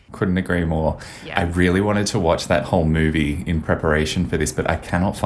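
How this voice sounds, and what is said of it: Usual voice. Nothing is said of it.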